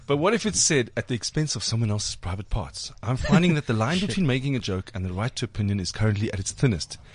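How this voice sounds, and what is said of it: Proper critic's reading voice. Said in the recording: “read it in your proper critique voice”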